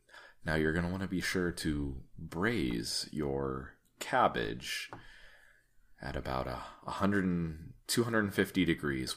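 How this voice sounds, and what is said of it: Public-radio host voice. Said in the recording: “You get your NPR voice on for this one.”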